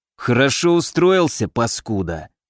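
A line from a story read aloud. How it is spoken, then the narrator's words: Through gritted teeth. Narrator (Russian): произнес шеф сквозь зубы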